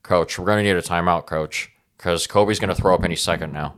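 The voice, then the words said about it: Impression of Keegan. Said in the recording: “I don't think he's got that great of a Keegan impression, though... I think mine's a little better.”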